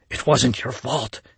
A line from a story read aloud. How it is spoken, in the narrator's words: he whispered, soothing her with his own mind